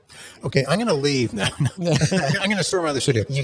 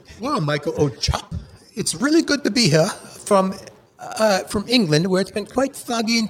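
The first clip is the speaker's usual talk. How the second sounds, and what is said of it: Put-on accent. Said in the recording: “Let's do an accent. ... you're going to do some accents.”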